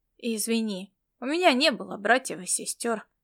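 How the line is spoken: Disconcerted mumble. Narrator (Russian): пробормотал он обескураженным тоном

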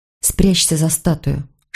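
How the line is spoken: Whisper. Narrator (Russian): шепнула я

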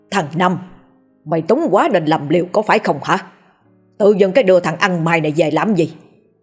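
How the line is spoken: Loud angry shout. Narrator (Vietnamese): Ông hội đồng quát lớn

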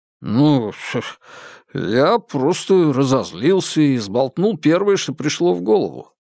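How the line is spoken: Hesitant drawl. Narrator (Russian): неуверенно протянул Хуан Цзиньфэн

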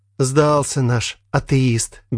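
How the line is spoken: Flat colorless voice. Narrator (Russian): бесцветным голосом промолвила Женя

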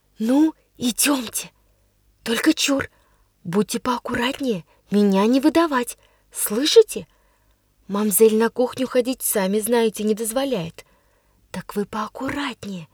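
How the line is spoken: Cheerful whisper. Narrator (Russian): весело шептала мне Дуняша

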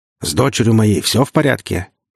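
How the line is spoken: Gruff voice. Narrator (Russian): своим грубоватым голосом поинтересовалась ведьма

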